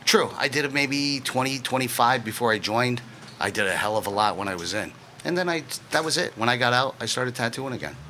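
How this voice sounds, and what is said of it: Very strong Northeastern American accent. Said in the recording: “really very, very strong Northeastern accent”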